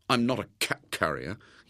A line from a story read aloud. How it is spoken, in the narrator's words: he muttered indignantly